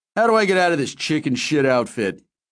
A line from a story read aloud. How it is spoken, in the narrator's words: laughed